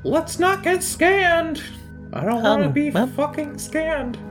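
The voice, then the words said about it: Character voice for a role. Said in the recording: “Zaldwin, you remember, you don't have to do that voice.”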